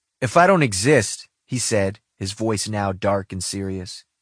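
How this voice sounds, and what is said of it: Usual voice. Nothing is said of it.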